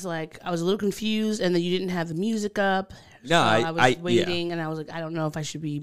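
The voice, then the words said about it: Long Island accent, overpronounced words. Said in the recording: “you're just overpronouncing everything today. ... That's just my Long Island accent.”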